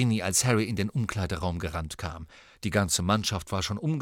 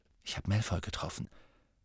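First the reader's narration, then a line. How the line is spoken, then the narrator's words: Quiet. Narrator (German): sagte Harry leise zu ihr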